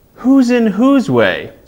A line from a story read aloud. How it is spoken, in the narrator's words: snapped the south-going Zax